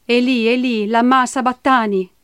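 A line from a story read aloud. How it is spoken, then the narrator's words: Loud cry. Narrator (Italian): Gesù gridò a gran voce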